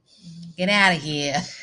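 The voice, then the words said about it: Thick New York accent. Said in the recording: “say goodbye in a really thick New York accent.”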